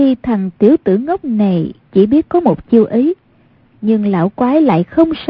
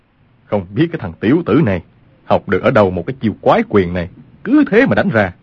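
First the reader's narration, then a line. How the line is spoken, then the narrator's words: Exasperated, amused muttering. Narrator (Vietnamese): Lương Tử Ông vừa tức giận vừa buồn cười, mắng thầm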